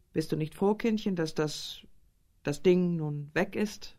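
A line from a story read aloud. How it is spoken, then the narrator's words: Forced laugh. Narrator (German): fragte und zwang sich zu einem Lachen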